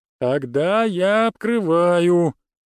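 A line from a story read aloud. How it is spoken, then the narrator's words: Drawled with audible smile. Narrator (Russian): Тренер протянул слова с такой явной улыбкой в голосе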